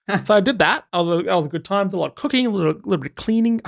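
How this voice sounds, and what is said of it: Very fast, jittery speech. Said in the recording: “I'm talking so fast right now ... I'm shaking”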